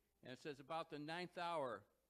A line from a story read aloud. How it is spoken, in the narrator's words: Jesus cried out